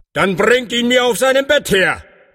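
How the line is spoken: Called out. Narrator (German): rief er

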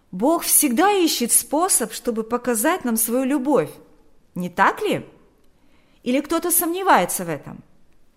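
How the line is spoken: Shouted after. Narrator (Russian): Берни крикнул вслед

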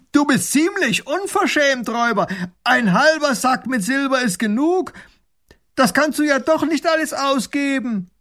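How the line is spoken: Calling across. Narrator (German): ruft hinüber

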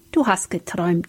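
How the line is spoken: Gentle. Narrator (German): sagte Philipp sanft

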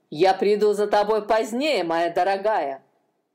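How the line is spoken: Said angrily. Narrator (Russian): злобно сказал один

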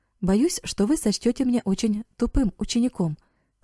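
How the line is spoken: Plain. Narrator (Russian): сказал Эрик

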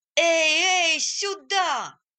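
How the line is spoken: Shouting. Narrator (Russian): кричали

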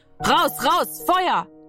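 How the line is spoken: Shouted. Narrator (German): schrie

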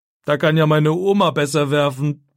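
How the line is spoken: Mocking. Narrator (German): sagt er spöttisch

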